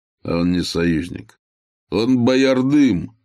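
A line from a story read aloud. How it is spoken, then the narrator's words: Laughing. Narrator (Russian): засмеялся Тугар Кахан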